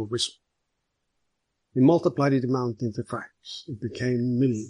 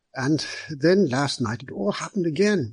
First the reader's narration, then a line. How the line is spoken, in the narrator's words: cried Mr